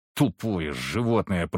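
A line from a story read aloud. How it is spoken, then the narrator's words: Strained hiss. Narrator (Russian): прошипел я, пытаясь подняться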